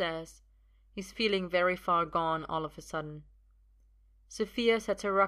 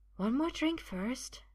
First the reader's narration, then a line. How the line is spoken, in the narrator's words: she says quietly